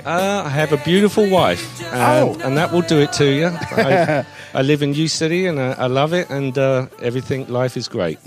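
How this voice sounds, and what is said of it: English accent. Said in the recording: “the exotic accent ... is it Australia, Britain? ... It's English.”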